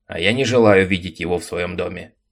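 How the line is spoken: Angry. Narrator (Russian): сердито ответил Макларен

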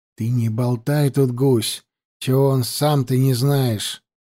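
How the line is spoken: Angry hiss. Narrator (Russian): прошипел ему зло цыган

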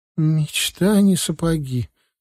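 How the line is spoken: Very upset voice. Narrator (Russian): крайне расстроенным голосом сообщила Алиса

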